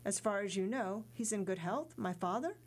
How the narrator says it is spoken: Dantès asked, somewhat hesitantly

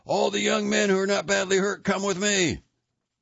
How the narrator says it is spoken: he shouted

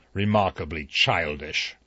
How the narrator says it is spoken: Justice Wargrave grunted

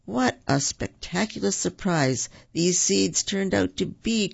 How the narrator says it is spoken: cried Tigger

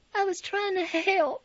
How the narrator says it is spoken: I whined

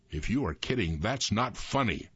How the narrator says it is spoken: Aus growled at the deputy

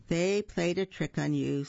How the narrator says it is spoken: sighed his friend the cricket

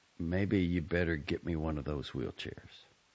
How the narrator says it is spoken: said quietly

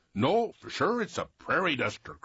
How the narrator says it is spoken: cried another

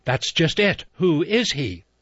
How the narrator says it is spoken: She said sharply

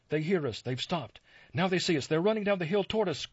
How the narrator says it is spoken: cried Ulrich

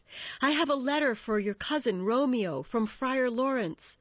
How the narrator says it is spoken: he called out as Benvolio approached

